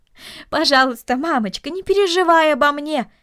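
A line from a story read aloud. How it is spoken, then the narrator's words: Pleading. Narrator (Russian): взмолился Дино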